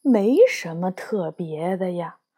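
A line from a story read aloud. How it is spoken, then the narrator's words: Muttering. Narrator (Chinese): 老裁缝嘀咕着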